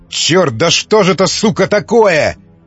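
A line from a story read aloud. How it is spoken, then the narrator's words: Desperate shout. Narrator (Russian): закричал дьякон в отчаянии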